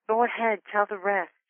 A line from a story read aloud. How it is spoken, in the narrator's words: whispered encouragingly